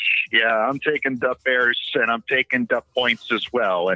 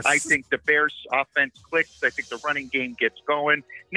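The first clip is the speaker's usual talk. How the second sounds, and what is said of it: Put-on Chicago accent. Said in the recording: “I might as well just do this whole thing with a Chicago accent”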